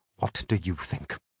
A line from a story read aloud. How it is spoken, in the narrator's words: I said coldly